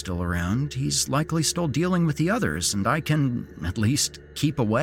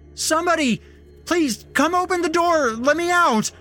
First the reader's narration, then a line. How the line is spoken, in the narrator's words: yelling, hoping to attract attention from somebody, anybody, even the sheriff